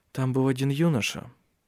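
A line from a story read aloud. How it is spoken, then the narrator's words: Tired voice. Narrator (Russian): устало произнес он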